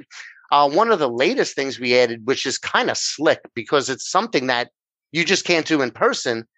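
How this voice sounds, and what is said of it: New York accent. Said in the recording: “I'm over here in New York, which if they haven't figured out by my accent, that's where I'm from”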